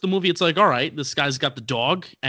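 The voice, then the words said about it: New York accent on one word. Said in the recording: “my Jersey accent, my New York accent when I said dog”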